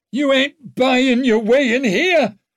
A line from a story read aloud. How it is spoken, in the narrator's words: shouted Silent from up on the wall, but he sounded a little shrill over the possibility